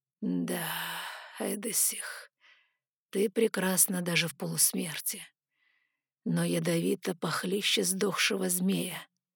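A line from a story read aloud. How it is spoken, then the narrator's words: Stranger whispering. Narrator (Russian): прошептал пришелец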